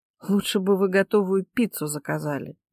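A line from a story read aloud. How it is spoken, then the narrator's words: Sighing. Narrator (Russian): вздохнула Ника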